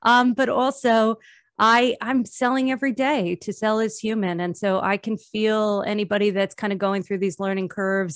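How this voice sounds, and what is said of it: New Jersey accent. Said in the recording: “you have a cool New Jersey accent. ... I do have a cool New Jersey accent.”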